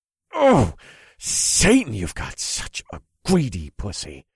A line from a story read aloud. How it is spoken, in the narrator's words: I grunted